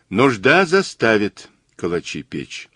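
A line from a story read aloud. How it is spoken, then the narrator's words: Thoughtful. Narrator (Russian): задумчиво сказал Мазур по-русски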